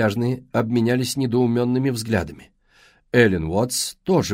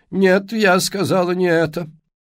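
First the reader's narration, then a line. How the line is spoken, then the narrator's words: Dry, old woman. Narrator (Russian): сухо обронила старушка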